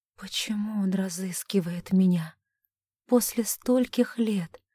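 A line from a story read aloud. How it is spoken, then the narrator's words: Barely audible question. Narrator (Russian): еле слышно спросила Александра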